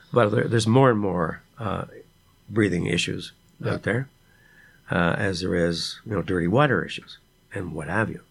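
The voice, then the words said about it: Raspy voice. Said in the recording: “my voice is raspy,”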